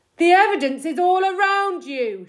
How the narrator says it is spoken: shouted Mr

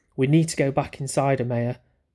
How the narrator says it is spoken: Mally said

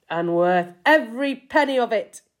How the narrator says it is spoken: he cried

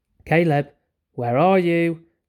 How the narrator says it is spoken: called out

